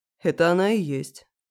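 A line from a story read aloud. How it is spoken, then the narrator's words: Calm confirmation. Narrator (Russian): спокойно подтвердил хам, которого в миру нарекли Русланом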